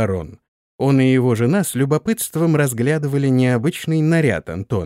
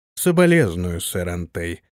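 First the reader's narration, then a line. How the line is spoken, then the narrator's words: Indifferent voice. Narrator (Russian): равнодушным голосом произнес барон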